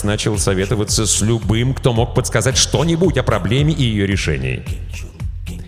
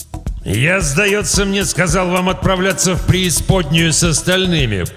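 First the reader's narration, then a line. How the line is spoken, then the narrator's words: Growling. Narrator (Russian): прорычал истинный правитель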